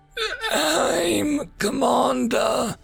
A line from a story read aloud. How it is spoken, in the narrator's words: croaked